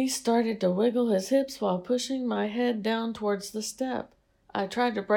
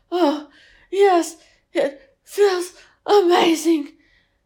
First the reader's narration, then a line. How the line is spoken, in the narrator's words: gasp and mutter